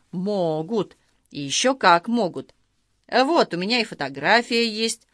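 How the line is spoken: Grandiose exclamation. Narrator (Russian): старший лейтенант с пафосом воскликнул

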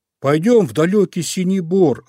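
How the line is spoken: Bear cub shouting. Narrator (Russian): закричал Мишка-медвежушка

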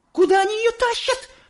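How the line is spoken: Shrill squeal. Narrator (Russian): взвизгнула миссис Солт

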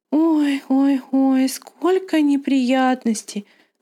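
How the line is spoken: Sighing. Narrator (Russian): вздохнула Анна-лиса

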